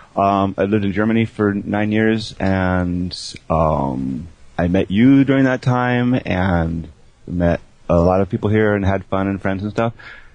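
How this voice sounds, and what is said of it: American English accent. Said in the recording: “I come from America, as you might guess from my accent, from L.A. and San Francisco.”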